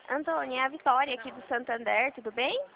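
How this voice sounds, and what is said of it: Childlike, baby-like voice. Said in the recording (Portuguese): “você tá com a voz de criança ... Essa voz de bebê”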